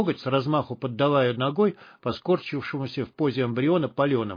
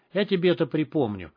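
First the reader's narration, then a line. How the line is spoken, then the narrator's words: Calm reply. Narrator (Russian): спокойно ответил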